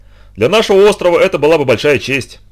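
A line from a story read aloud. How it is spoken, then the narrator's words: Exclamation. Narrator (Russian): воскликнул Модрис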